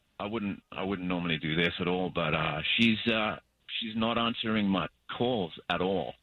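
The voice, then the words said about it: Australian accent. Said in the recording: “this accent of yours, like, where's that from? ... I'm from Perth, Australia.”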